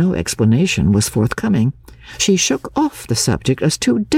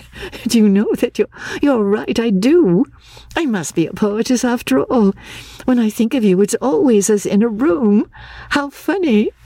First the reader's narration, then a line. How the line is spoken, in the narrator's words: said, laughing